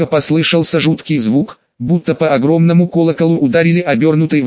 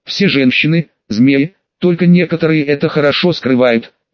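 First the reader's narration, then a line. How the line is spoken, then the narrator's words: Nervous hiss. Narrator (Russian): прошипел нервничающий маг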